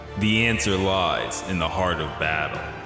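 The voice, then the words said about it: Tough guy announcer voice. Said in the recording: “your tough guy voice ... You sound like the Soul Calibur announcer.”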